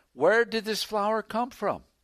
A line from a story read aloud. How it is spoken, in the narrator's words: Bates exclaimed